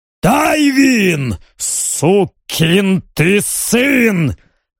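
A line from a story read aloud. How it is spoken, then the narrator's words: Barking shout. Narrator (Russian): рявкнул Ноа, узнав командира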